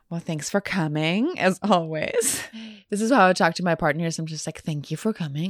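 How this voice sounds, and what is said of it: Sick, congested-sounding voice. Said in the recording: “I'm a little sick, actually, which listeners, you might be able to hear that in my voice.”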